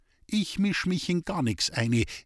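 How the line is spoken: Cook's calm reply. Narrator (German): erwiderte die Köchin ruhig

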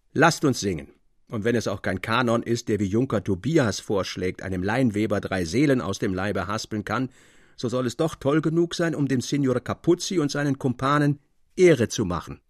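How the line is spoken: Called out. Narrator (German): rief Theodor

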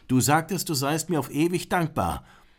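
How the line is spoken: Calling out. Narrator (German): Grishwash rief

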